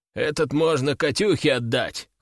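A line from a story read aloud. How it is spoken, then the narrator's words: Chuckling. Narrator (Russian): хохотнул Брак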